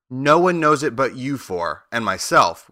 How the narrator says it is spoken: replied Oz

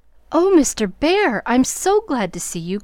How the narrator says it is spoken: cried Jo with a clutch, as if she feared the night would swallow him up before she could get him in

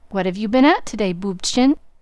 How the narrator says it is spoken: asked Mr

